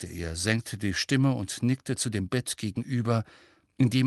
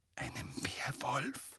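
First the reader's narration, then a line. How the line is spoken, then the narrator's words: Whispered. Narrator (German): flüsterte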